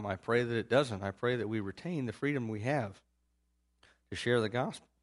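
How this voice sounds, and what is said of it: Strained, nearly lost voice. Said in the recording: “my voice is about gone.”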